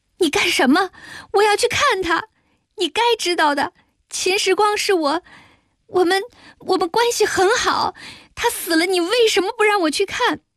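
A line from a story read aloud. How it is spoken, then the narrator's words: Loud sobbing. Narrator (Chinese): 说着我大声哭起来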